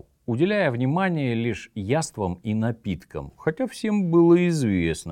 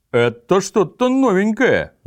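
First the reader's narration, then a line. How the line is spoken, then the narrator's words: Group shouting. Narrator (Russian): закричали те, кто сидел рядом с ним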